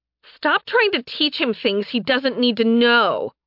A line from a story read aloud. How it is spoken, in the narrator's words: they shouted in unison